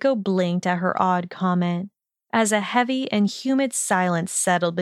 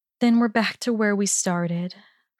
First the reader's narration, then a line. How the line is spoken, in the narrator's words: Hermione sighed, hating the edge of sadness to her whisper